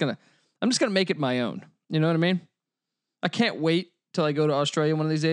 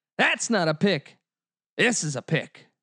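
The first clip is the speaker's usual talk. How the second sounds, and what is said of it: Terrible put-on Australian accent. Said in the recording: “It's fucking terrible. It's a terrible Australian accent.”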